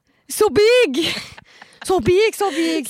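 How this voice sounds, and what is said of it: English with northern French accent. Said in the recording (French): “C'est quoi cet accent lorrain d'anglais? ... Ah, c'est du nord, du nord.”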